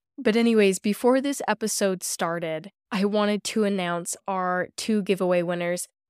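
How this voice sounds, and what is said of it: Scratchy sick-sounding voice. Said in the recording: “I have a little bit of a cold ... this kind of scratchy, scary voice ... it's so bad”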